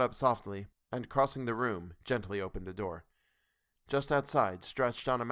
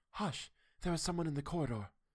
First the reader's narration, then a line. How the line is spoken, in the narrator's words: she whispered in my ear